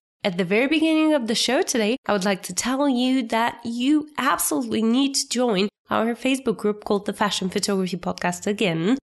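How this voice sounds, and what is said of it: Sick, unusual-sounding voice. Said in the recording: “I'm a little bit sick still, so that's the reason why my voice sounds so different.”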